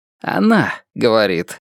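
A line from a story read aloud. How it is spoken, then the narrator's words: Hoarse correction. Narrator (Russian): поправляет хрипловатым голосом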